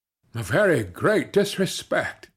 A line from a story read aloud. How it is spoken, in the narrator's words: exclaimed Captain Langford, an English officer